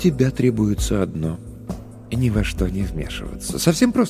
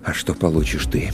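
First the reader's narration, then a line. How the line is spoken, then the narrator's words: Quiet, suppressed anger. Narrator (Russian): С трудом удерживая в груди закипающий гнев, я спросил тихо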